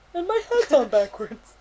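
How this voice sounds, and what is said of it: Humpty Dumpty character voice. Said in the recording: “best Humpty Dumpty impression”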